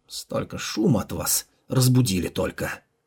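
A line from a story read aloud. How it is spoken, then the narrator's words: Sleepy grumble. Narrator (Russian): Только что спящий Дацин проворчал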